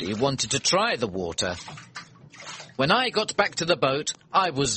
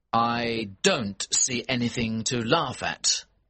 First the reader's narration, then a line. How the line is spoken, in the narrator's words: I said